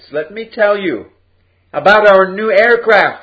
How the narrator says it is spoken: cried

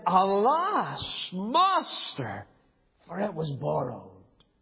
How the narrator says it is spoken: he cried and said

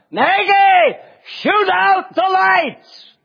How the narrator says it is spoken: I shout out

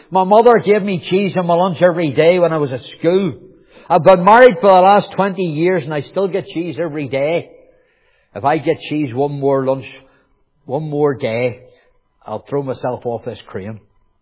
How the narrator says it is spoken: he shouted

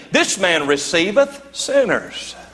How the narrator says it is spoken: the Pharisees and the scribes murmured, saying

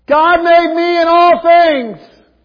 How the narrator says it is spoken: 19 other kids yell

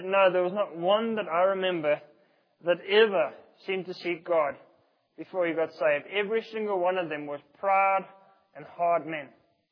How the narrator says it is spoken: he shook his head sadly and he said

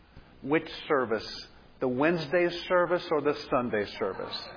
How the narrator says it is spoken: little Alex, in a barely audible voice, asked

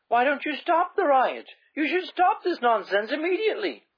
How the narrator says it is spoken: Gladys cried in dismay

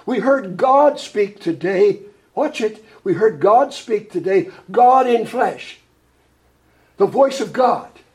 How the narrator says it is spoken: Representative Dewey Short of Missouri cried out

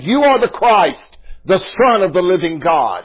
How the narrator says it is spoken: he exclaimed

